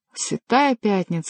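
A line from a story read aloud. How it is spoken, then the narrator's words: Exclaimed. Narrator (Russian): воскликнул тот, кому был обращен этот вопрос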